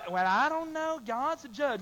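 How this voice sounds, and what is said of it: Timid, weak mocking voice. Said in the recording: “talking like a sissy”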